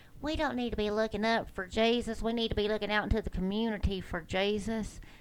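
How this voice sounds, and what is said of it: Bad put-on Texas accent. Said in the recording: “That's a bad Texas accent. ... I'm from Texas, so I can dog it like that.”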